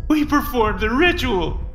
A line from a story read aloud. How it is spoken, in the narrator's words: he sobbed